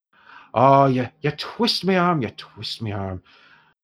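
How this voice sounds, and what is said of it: Put-on Irish accent. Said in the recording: “I think Talison used to be far more Scottish, but I've gone entirely Irish now ... I can't get to a Scottish accent today, so this is what you get ... Broadly Celtic”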